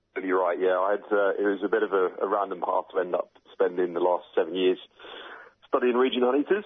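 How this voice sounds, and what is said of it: British accent. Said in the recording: “as you can tell from my accent, I'm obviously originally from the UK.”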